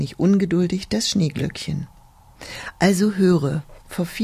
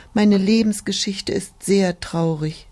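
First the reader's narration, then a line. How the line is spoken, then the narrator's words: Sighing. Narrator (German): die Tulpe seufzte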